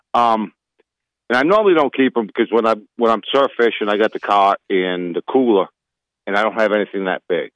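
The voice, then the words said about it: Northeastern Yankee accent. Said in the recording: “I'm a Yankee, so you gotta let the accent go.”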